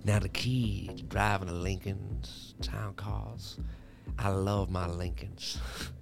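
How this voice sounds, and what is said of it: Impression with rolled S's. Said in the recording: “I'm working on Matthew McConaughey's. See, he rolls his S's.”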